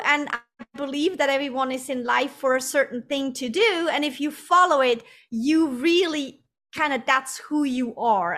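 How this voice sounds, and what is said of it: Swiss accent in English. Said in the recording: “people will notice an accent. You're from Switzerland”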